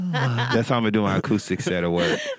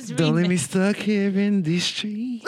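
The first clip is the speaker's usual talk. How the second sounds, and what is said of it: Soft whispered acoustic-style singing. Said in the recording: “this is like acoustic whispering.”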